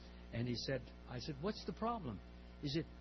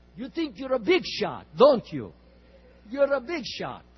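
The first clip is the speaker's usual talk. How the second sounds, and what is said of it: Imitated strong Russian accent. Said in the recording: “I'll imitate a little bit to him. He has a strong Russian accent.”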